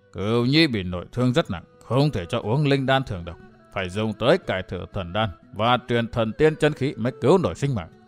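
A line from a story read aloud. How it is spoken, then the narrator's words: Muttering. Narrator (Vietnamese): Vạn Tà Thạch Thương Ngân lẩm bẩm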